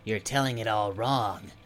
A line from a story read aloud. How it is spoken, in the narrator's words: Bumble grumbled